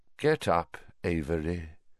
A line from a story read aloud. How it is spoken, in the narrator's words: said Voldemort softly